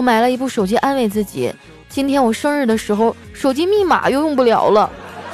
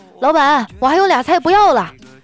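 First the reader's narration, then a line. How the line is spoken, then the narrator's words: Shouting from nearby table. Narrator (Chinese): 坐在我旁边一桌人啊就在喊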